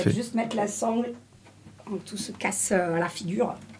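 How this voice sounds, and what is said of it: Slight put-on Marseille accent. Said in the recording (French): “je prends un petit accent marseillais”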